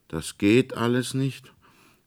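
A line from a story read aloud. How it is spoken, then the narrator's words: Drawn-out questioning tone. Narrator (German): fragte Fritz mit gedehntem Ton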